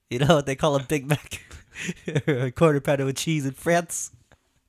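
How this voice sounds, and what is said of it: Exaggerated lisping imitated voice. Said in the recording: “I do a great lisp impersonation.”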